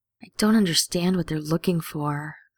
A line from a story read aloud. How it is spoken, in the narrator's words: Sam sighs